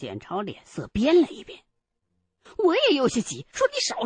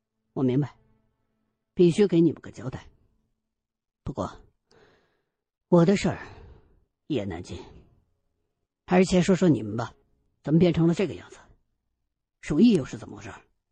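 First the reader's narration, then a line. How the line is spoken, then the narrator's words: Irritable. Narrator (Chinese): 我还是没好气儿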